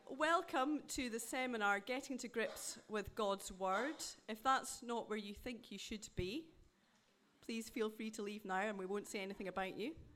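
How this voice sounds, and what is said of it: Scottish accent. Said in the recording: “As you can tell by my accent, I'm not a Midlander. I'm not really a Northerner either. I'm much further north than that. I'm originally from Dundee in Scotland.”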